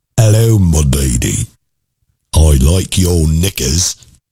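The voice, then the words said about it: Bad put-on English accent. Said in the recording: “talked in a bad English accent”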